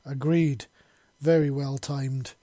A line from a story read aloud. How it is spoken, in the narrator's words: Moodstone panted